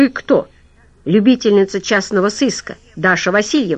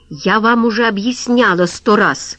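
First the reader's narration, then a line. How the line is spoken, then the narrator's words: Snapping retort. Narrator (Russian): огрызнулась Ольга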